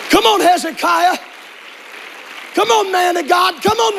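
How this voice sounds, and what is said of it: Loud yelling preacher delivery. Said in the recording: “why are you yelling so much? ... I'm not yelling half as loud as hell is yelling. ... If you think I'm loud right now”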